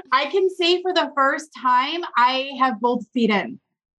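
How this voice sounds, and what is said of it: Emotional, choked-up voice. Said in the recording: “this is where I'm going to get emotional”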